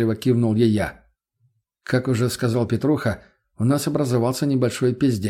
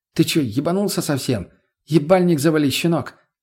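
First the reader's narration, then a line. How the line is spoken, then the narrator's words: Snapping retort. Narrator (Russian): огрызнулась Лена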